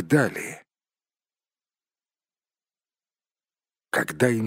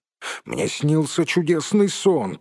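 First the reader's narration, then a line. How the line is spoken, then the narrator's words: Grumble. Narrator (Russian): пробурчал он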